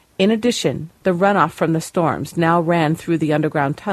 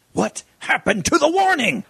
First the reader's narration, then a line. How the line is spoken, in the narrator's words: he yelled